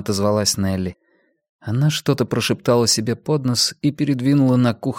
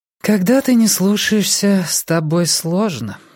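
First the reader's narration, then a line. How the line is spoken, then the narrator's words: Sighing. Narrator (Russian): вздохнула Нелли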